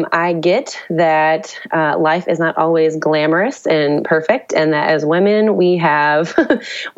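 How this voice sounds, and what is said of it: Raspy, hoarse voice. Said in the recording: “this delightful raspy voice um, that I'm sharing with you today because I have been sick ... my sultry voice”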